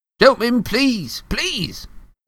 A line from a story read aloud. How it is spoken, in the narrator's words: cried the assistant